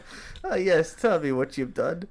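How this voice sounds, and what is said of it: Put-on German accent. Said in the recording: “You're getting into a German accent now.”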